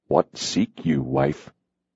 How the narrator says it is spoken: he asked icily

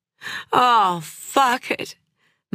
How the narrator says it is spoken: moaned Clementine

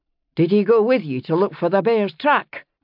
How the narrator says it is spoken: Jamie asked sharply, interrupting

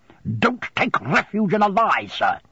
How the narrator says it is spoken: he returned so fiercely

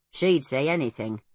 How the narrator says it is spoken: grumbled Pod

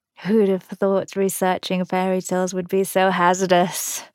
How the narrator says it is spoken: Jamie's chuckle turned into a pained hitch

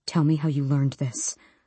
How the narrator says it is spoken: Archer whispered

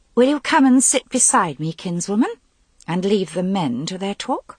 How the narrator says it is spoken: Her voice was chill as she said

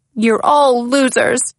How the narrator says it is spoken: yelled Mickey

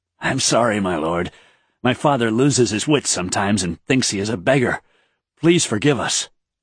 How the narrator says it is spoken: Then to Raythan he quickly said

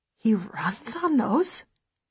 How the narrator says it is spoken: I gasp, because it doesn't seem possible

